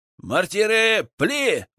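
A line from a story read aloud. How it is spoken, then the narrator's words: Shouted. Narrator (Russian): выкрикнул я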